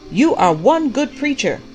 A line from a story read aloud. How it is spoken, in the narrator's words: the prophet shouted back